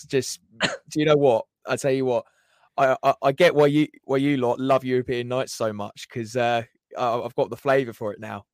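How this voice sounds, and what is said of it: Hoarse, nearly lost voice. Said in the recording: “Your voice is completely gone. ... I'm hoarse. My voice is hoarse.”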